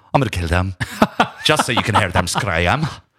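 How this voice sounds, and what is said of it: Put-on Irish accent, well done. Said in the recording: “That's his Irish accent... That's the best Irish accent you've ever done.”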